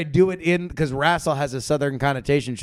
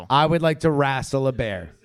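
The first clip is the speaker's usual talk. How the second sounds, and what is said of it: Put-on Southern accent. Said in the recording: “should I do a southern accent for both? ... At southern voice.”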